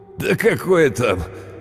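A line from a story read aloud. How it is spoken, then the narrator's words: Laughing. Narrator (Russian): он рассмеялся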